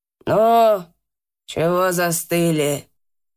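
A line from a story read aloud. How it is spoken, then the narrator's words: Creaky voice. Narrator (Russian): проскрипела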